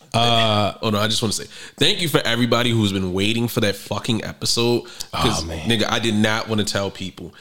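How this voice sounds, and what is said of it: Hoarse, weak sick voice. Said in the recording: “I'm calm because I don't have a voice. Like, my voice is coming back... I hate hearing you with the sick voice... my voice sucks... we both sick”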